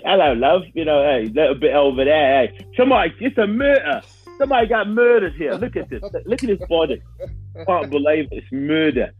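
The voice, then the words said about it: Mock British accent. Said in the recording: “They speak British.”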